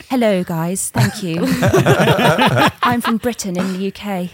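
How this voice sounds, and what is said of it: Imitates another person's voice. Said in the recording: “your Keira Knightley impression”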